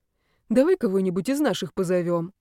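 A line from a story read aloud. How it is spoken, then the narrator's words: Sweet, angelic voice. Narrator (Russian): предложил он ангельским голосом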